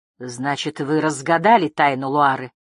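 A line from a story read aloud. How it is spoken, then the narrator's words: Snorting smirk. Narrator (Russian): хмыкнул Дум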